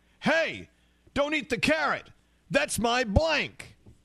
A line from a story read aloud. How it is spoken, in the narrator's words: So Frosty the Snowman yelled at the deer